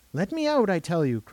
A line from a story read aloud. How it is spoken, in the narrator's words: cried Jane, very white and trembling a little